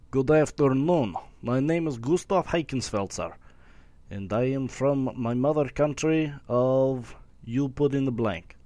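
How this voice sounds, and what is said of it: Put-on foreign accent. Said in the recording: “This is going to be an accent. ... if it's British, if it's Jamaican ... tell me the accent”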